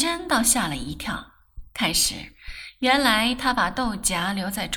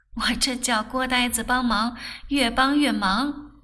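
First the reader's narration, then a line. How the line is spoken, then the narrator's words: Laughing. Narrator (Chinese): 笑道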